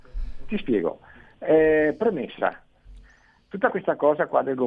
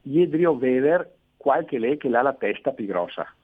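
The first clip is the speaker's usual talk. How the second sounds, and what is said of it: Phrase spoken in local dialect. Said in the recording (Italian): “detta in dialetto nostro, eh, s- suonerebbe così”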